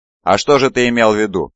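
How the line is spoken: Grumbled. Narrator (Russian): проворчал Калим

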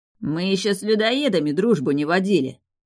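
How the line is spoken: Snapping retort. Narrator (Russian): огрызнулся Фарго

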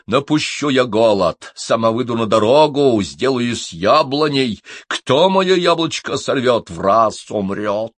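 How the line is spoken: Loud voice. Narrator (Russian): Старшая жена громким голосом говорит

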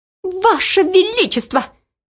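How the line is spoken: Squeaking. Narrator (Russian): пищал Нушрок

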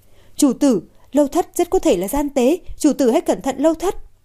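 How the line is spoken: Agitated loud call. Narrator (Vietnamese): Tuyết lập tức mất bình tĩnh, lớn tiếng gọi

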